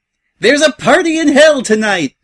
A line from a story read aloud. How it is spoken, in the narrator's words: Pinkie shouted as if on cue from a precarious position atop the rigging